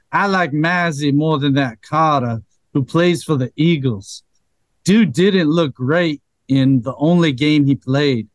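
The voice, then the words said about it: Put-on accent. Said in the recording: “I'll try my best accent here.”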